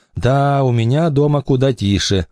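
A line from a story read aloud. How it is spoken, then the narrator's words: Gloomy remark. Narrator (Russian): мрачно заметила Эмили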